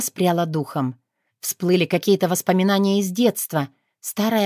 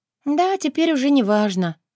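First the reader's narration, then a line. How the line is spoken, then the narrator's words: Sigh. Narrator (Russian): вздохнула я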